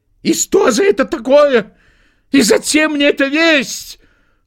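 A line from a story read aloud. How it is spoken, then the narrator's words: Shaking wail. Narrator (Russian): завопил он, трясясь всем телом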